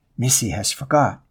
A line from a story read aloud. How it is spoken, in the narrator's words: they whispered to each other